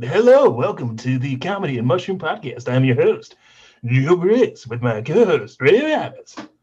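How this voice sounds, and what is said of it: 1990s TV announcer voice. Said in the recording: “I did it with like the 1990s TV guy voice”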